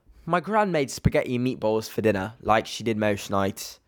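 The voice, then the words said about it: Attempted British accent. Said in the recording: “oh, I'm getting British vibes... No, that accent, we can't do it.”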